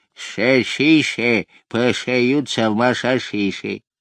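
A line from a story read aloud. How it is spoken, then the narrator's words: Toothless mumbling. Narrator (Russian): прошамкал беззубым ртом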